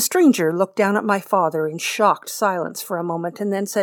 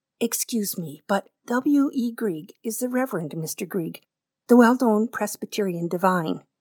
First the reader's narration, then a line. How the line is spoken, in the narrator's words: my father said, quietly and reprovingly